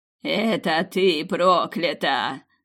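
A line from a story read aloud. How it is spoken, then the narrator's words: Loud laughter. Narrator (Russian): захохотала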